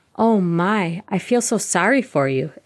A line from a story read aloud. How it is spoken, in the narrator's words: Isabel exclaims